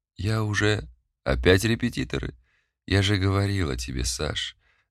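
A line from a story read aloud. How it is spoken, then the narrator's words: Fairly calm speech. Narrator (Russian): достаточно спокойно произнесла я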